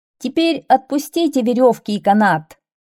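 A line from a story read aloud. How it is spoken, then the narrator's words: Shouted. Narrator (Russian): закричал он народу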